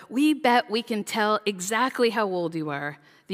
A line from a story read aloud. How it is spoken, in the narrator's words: one of the grandmas yelled out